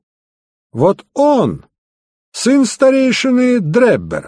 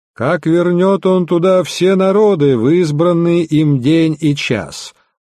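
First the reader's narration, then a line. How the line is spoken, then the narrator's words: Nasal drone. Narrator (Russian): прогнусавил второй гость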